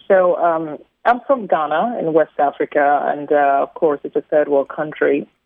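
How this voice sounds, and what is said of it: Ghanaian accent with slight British tinge. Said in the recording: “my little British accents”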